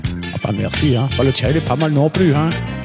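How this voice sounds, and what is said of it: Pleasant regional French accent. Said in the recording (French): “tu as un joli accent. ... Moi j'aimerais bien avoir un accent comme toi.”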